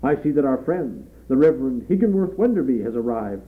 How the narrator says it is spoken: cried Mr

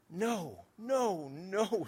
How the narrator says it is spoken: sobbed Gunther

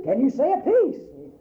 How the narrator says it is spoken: Thundered

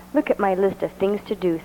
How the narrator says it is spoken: said Toad

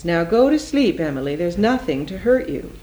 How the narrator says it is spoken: in a sterner voice

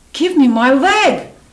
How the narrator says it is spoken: she screamed

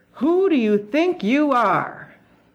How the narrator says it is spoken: A final surge of fury shook her, and she roared

